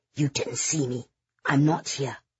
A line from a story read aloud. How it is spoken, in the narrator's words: hissed